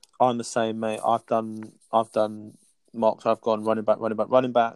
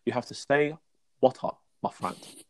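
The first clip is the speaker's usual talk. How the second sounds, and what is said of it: Imitates another person's voice. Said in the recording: “My terrible impression of Bruce Lee”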